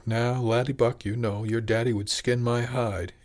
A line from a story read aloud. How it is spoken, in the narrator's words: began with a chuckle